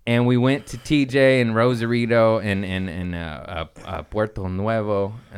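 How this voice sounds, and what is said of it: Anglicized pronunciation of Spanish names. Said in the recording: “That's my white side coming in right there with that accent.”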